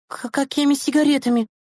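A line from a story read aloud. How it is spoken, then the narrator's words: Startled hiccup, babbling. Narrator (Russian): икнув от неожиданности, пролепетала Громова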